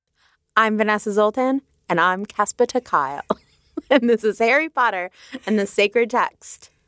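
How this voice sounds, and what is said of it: Put-on British accent. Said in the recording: “That is a British accent. I don't think it's Casper's British accent.”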